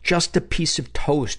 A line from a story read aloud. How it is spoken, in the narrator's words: she begged